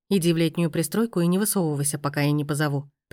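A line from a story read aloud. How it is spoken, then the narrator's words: Calm command. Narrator (Russian): приказал Коля спокойно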